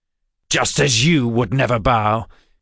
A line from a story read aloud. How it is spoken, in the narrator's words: Jabez snapped back